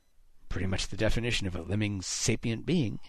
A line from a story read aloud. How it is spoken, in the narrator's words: Haddix muttered